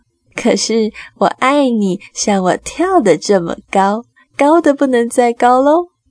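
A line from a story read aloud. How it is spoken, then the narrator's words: Big rabbit laughing. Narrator (Chinese): 大兔子笑着说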